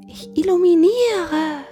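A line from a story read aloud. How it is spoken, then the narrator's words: Small cat calling down. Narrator (German): rief die kleine Katze herunter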